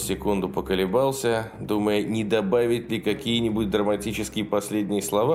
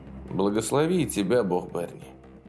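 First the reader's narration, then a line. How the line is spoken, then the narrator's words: Quiet male voice. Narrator (Russian): закончил он тихо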